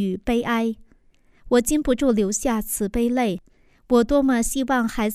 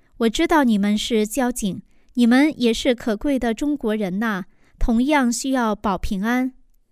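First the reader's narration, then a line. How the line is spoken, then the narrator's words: Calm, smiling. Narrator (Chinese): 我平和而微笑着说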